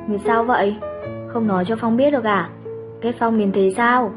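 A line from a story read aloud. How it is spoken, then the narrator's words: Sighing soft voice. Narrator (Vietnamese): tiếng thở dài, lời nói nhỏ nhẹ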